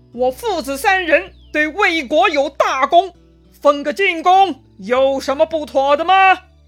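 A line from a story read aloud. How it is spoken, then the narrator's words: Angry, loud rebuke. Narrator (Chinese): 司马昭就生气了哈，他大声斥责皇帝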